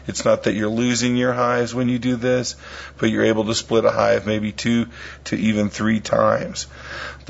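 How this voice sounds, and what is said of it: Strained, partly lost voice. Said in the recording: “my voice is a little out”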